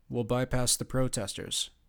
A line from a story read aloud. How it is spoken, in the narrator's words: Cardiff said